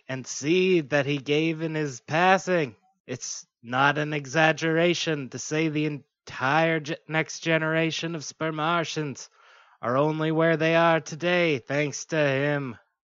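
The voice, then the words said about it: Imitates another person's voice. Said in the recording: “I didn't know you were going to do Kennedy. ... It was a noticeable accent that I could almost do.”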